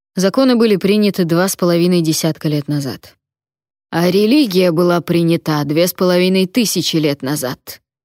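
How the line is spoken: Barked. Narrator (Russian): рявкнул сэр Отмар

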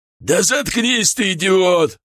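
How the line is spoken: Angry bark. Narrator (Russian): рявкнул на него Шар

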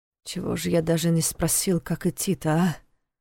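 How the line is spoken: Muttering to himself. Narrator (Russian): пробормотал он себе под нос

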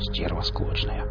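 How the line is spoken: Whispered. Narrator (Russian): Нарк шепотом сказал

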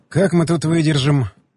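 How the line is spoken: Sighed. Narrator (Russian): вздохнул

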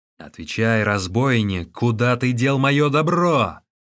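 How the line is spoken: Shouting. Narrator (Russian): он закричал

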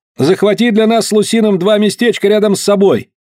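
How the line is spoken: Shouted. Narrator (Russian): Я крикнул

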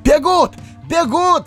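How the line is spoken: Shout from behind. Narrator (Russian): закричал кто-то сзади

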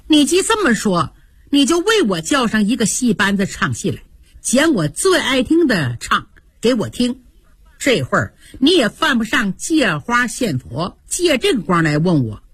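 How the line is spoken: Cold. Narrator (Chinese): 黛玉冷冷地说

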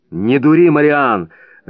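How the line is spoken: Irritated, curt. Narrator (Russian): раздраженно бросил Прескотт

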